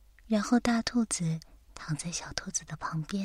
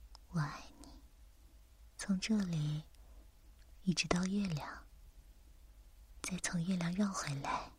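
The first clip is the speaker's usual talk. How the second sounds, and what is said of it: Soft, quiet, smiling voice. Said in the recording (Chinese): “小声的微笑着说”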